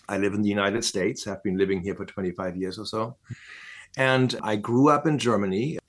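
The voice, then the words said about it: German accent in English. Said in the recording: “as you might be able to hear from my accent, I'm German”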